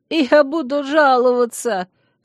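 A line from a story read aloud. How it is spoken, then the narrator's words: Sobbing newspaperman. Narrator (Russian): всхлипнул газетчик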